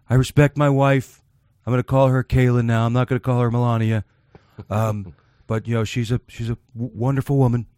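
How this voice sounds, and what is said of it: Donald Trump impression. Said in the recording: “Do your Trump voice.”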